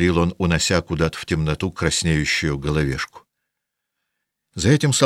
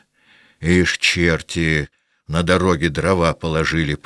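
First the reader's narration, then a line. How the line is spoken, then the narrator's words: Grumbling. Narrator (Russian): проворчал он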